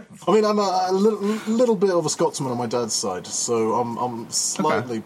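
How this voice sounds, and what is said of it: British-sounding accent. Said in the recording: “Don't get fooled by the accent, by the way. I'm Scandinavian. It's just the way I was educated.”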